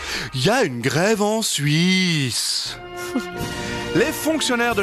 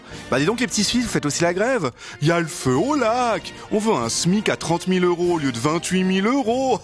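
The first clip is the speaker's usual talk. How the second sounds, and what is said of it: Exaggerated mock Swiss French accent. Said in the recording (French): “Et je sais ce que pensent nos chers voisins. ... déjà cet accent n'existe pas.”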